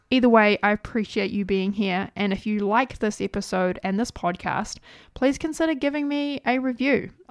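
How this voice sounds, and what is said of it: New Zealand accent. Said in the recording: “my weird New Zealand accent”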